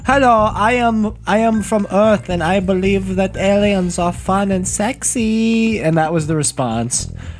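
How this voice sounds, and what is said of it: Vague put-on European accent. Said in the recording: “accent that wasn't offensive. That was like good. It was like a German, German, Ukrainian, Brazilian. ... I was going for, vaguely European ... world traveler.”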